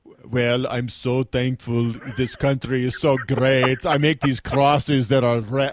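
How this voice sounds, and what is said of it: Imitates another person's voice. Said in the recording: “your Albert the Jeweler / Arnold Schwarzenegger impersonation”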